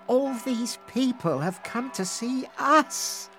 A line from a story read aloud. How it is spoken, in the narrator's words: she sighed